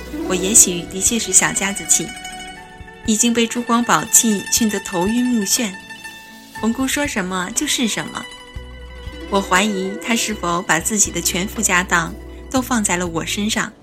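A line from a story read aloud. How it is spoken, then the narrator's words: Muttering to oneself. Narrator (Chinese): 我口中喃喃自语着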